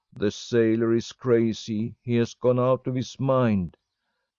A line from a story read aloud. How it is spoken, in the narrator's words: A laughing, jeering crowd shouting